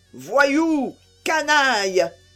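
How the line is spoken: Choked furious roar. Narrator (French): rugit-il d'une voix étranglée par la fureur

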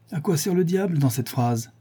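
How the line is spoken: Sneering. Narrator (French): dit Linton en ricanant

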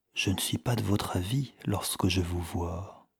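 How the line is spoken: Intimate whisper in ear. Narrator (French): murmura Anatole à l'oreille de Natacha, de façon à être entendue d'elle seule

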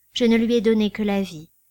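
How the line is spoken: Sad. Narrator (French): dit tristement

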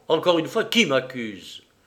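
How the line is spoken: Harsh repetition. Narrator (French): Il répéta durement

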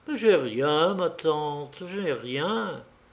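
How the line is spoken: Calm, tired. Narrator (French): il prononçait invariablement, d'un ton calme et fatigué

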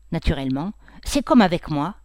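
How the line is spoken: Sulky. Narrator (French): dit Odette d'un ton boudeur

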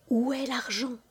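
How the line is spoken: Quiet question. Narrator (French): demanda-t-il tout bas

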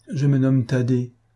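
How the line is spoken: Sad child, after pause. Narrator (French): répondit tristement l'enfant après un moment de silence et de réflexion

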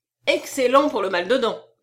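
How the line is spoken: Exclamation. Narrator (French): s'écria Monsieur Lecoq

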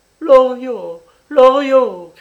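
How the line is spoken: Old woman shouting. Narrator (French): criait la vieille

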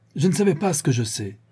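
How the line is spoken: Exclaimed. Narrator (French): s'écria Béchoux

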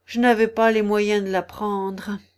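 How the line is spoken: Sighing. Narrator (French): dit en soupirant la fausse tortue

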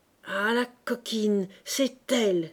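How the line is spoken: Young woman exclaiming. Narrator (French): s'écria la jeune femme

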